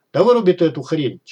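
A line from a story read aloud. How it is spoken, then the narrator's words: Barking over shoulder. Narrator (Russian): через плечо рявкнул Маргарину Смычок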